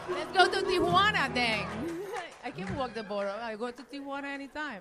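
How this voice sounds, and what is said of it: Speaks with a foreign accent. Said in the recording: “make people happy with my accent”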